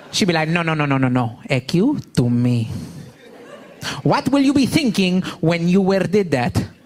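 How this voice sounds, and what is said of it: Imitated mother's accented broken English. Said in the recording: “I grew up with the accent. My mother's been in this country 35 years, still has not mastered the English language”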